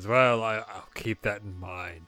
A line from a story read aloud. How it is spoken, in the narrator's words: He chuckles and says